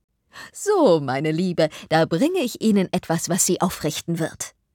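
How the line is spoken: Cheerful, comforting. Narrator (German): fröhlich lächelnd fest überzeugt, sie werde Trost spenden, und sagte

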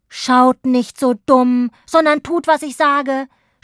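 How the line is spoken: Impatient shout. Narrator (German): schrie Hauptmann Schnute, weil sich niemand rührte

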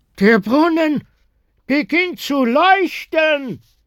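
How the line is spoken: Call from the front. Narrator (German): rief jemand von vorn

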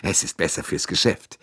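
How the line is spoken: Laughing. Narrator (German): Foscarelli lachte

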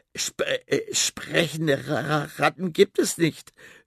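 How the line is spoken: Stammering. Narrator (German): stammelt

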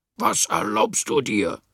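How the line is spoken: Angry shout. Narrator (German): schrie er wütend

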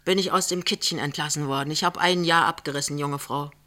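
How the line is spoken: Plain. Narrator (German): sagt Jachmann

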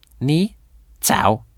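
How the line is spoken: High-pitched voice. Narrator (German): sagt der gelbe Hase mit hoher Stimme

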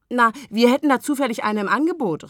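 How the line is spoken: Calling out. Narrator (German): rief Agathe

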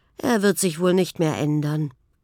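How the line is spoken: Prince sighing. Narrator (German): seufzte der Prinz

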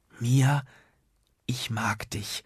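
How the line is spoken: Nervous excited whisper. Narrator (German): flüsterte Nuno, und sein Herz hüpfte noch dreimal wilder herum

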